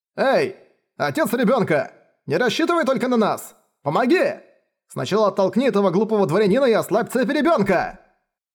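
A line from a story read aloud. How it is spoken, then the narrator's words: Shouted by a father. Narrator (Russian): Отец мальчика, лежащий на земле, закричал в ответ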